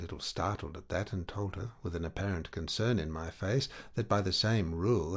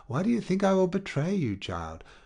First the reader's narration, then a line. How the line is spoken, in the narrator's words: She returned warmly